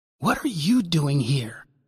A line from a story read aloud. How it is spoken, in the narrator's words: I whispered harshly